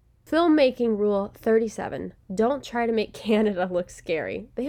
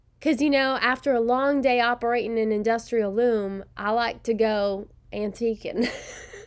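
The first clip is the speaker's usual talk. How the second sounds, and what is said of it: Put-on Southern American accent, poorly done. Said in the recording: “I can do it with a Southern accent. ... So bad.”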